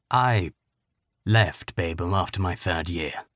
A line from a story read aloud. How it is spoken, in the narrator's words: Griffin said quietly